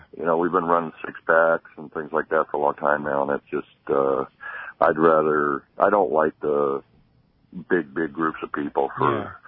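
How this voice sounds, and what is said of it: Tired-sounding voice. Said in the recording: “I sound kind of tired,”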